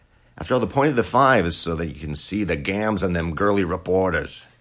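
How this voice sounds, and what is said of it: Roger Ailes impression. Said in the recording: “my Roger Ailes impression”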